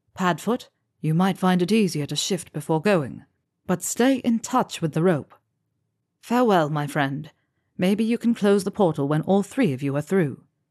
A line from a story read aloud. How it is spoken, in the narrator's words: Sally said in a firm voice